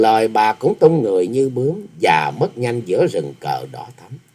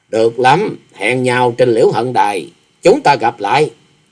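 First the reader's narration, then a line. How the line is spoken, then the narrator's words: Cold. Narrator (Vietnamese): Bằng một giọng lạnh lùng bà thốt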